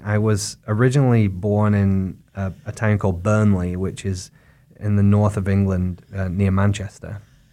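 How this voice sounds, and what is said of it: English accent with some American influence. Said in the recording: “they think I talk like an American, but I haven't completely lost my English accent.”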